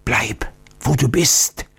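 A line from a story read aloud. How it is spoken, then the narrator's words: Old man's warning whisper. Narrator (German): flüsterte der alte Oktiondo warnend zu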